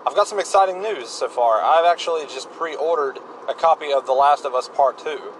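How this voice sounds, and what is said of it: Talking loudly. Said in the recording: “I'm talking so loud”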